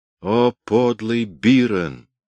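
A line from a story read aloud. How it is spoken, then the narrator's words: Groaning. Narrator (Russian): простонал Кристо Демус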